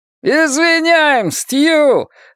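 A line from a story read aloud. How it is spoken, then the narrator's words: Joyful shout. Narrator (Russian): радостно закричал Гарри Данбертон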